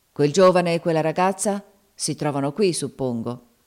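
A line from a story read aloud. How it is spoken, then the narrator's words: Irritable voice after pause. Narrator (Italian): disse dopo un istante con voce stizzosa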